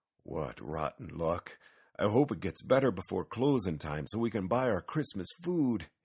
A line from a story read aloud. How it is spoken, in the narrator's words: sighed